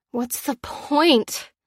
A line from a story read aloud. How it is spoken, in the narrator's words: moaned as her head pounded with cold and hunger